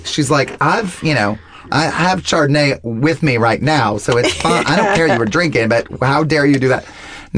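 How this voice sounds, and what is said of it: Imitates another person's voice. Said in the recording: “my impression of my mom always is so wrong. My mom sounds nothing like that.”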